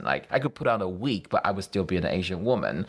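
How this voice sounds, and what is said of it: Noticeable non-native accent. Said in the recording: “I cannot really erase my accent ... because of how I look and my accent”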